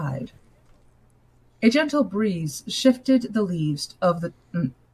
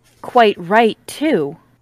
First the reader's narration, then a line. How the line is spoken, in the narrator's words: Miss Lutyens said firmly